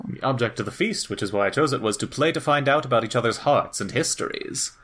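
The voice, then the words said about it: Performed character voice. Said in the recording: “that Seahawk voice is gonna kill me ... I do love this character voice that you've chosen. It's very good ... It is a bit Sir Angelo”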